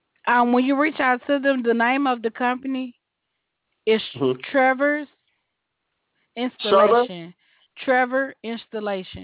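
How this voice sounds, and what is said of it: Southern Georgia accent. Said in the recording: “that southern accent ... that is a Georgia accent”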